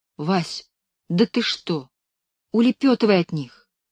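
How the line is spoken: Frightened whisper. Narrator (Russian): Белка испуганно шептала

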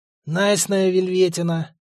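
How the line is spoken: Ominous wheeze. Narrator (Russian): зловеще просипел модник

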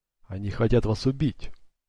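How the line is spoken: Very quiet old man. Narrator (Russian): очень тихо проговорил старик

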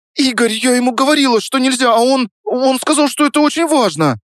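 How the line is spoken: Babbling. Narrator (Russian): Пролепетала она

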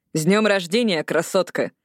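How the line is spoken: Laughing. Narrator (Russian): Лилиноя подбежала, смеясь

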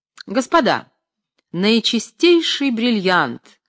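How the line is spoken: Loud shouting showman. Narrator (Russian): громко кричал фокусник

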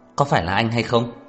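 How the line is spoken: Angry, heavy-breathing question. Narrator (Vietnamese): Đường Khả Hinh tức giận thở mạnh hỏi

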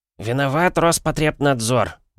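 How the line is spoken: Grumbled mutter. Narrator (Russian): буркнул Вересаев

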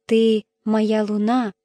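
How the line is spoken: Tearful whisper. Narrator (Russian): прошептала она, и слезы наполнили ее глаза

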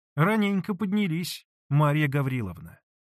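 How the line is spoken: Plain. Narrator (Russian): сказала она

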